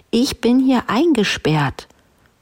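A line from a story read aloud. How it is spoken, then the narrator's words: Called out. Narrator (German): rief die Prinzessin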